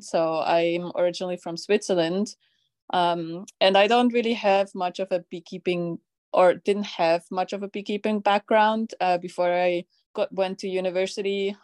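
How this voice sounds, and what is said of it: Non-American, Swiss-accented English. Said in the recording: “my accent probably also reveals that I'm not American.”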